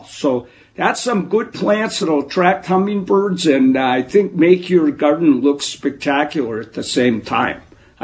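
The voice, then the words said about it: Wisconsin accent. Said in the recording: “that Wisconsin accent that you have”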